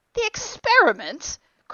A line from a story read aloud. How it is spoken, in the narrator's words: cried Philby, who was getting brain weary